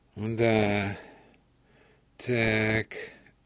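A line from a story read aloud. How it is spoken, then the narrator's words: Slow, sighing. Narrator (Russian): медленно проговорил фельдшер и вздохнул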